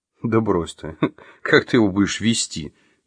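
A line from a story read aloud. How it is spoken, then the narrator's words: Laughing. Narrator (Russian): засмеялся Василий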